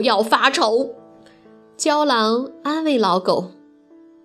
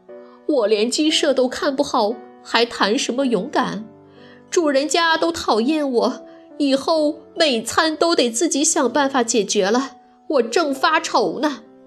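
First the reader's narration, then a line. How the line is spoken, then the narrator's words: Old dog, sighing. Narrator (Chinese): 老狗叹了一口气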